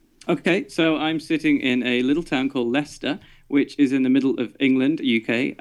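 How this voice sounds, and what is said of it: Different accent from host's. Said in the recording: “a different accent than I have”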